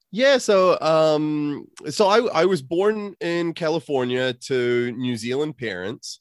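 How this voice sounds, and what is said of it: Unusual accent. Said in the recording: “you've got an unusual accent”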